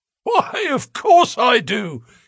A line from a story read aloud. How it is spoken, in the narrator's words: he wheezed